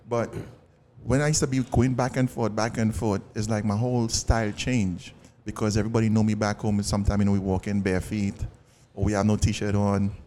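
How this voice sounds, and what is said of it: Trinidadian accent. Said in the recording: “I still have my Trini accent”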